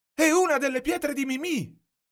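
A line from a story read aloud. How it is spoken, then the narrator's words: Shouted. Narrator (Italian): grida Lorenzo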